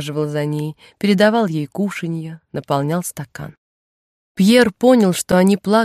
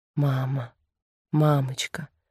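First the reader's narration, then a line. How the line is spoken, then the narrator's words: Tender repetition. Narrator (Russian): Жан нежно повторял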